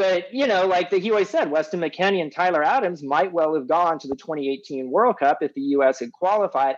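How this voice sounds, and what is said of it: Usual voice. Nothing is said of it.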